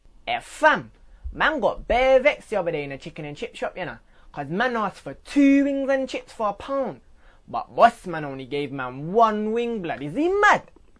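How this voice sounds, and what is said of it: Rude boy London street accent. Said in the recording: “we're going to hear Rude Boy”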